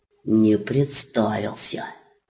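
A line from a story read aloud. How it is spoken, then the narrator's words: Whisper. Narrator (Russian): Также шепотом ответил царевич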